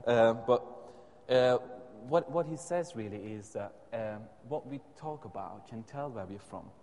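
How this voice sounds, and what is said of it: Unusual non-native accent. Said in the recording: “my accent is a bit not usual. Perhaps some of you can tell.”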